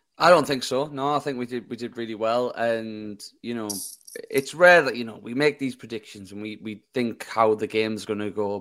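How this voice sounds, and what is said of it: Hoarse, strained voice. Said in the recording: “you can probably tell by my voice that I've done a lot of screaming tonight”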